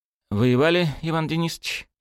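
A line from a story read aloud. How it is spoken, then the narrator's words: Relieved exhale. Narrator (Russian): Павел облегченно выдохнул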